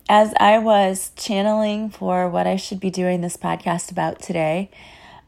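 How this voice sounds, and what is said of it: Voice sounds unwell. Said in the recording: “you can probably still hear in my voice that I still do not feel great ... so they don't sound like you”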